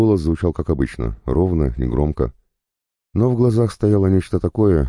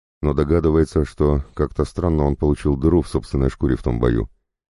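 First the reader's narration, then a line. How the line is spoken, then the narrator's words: Plain. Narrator (Russian): сказал капеллан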